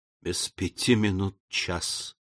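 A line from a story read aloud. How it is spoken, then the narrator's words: Whispered. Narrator (Russian): прошептал Николь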